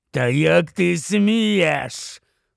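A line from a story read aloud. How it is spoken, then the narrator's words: Hoarse rasp, through bared teeth. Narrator (Ukrainian): хрипів він, змушений на неї вишкірятися і не маючи змогу рухати нічим, крім рота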